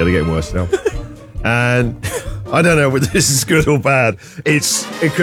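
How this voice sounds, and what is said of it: Usual voice. Nothing is said of it.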